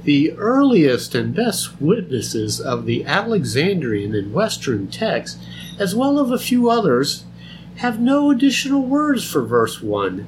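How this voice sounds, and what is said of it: Put-on scholarly voice. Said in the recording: “you got to do a scholarly voice”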